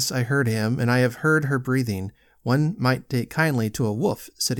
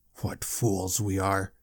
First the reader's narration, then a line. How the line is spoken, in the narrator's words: muttered